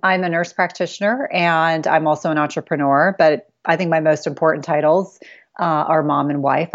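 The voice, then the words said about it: American accent. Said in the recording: “I live in the United States, if you can't already tell from my accent.”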